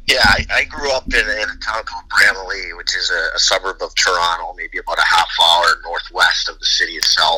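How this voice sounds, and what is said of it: Canadian accent. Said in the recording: “be from Canada originally ... We can obviously hear the accent.”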